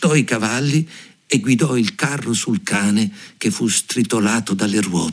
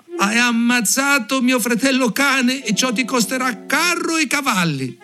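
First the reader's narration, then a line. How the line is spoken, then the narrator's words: Sparrow shouting. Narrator (Italian): Il passero gridò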